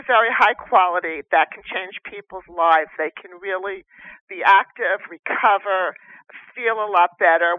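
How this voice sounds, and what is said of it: New Jersey accent. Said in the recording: “your New Jersey accent”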